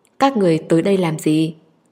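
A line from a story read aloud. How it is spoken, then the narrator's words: Cold voice. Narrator (Vietnamese): Chu Nghi Ninh lạnh lùng nói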